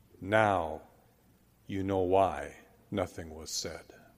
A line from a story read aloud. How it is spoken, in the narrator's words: Khrushchev replied quietly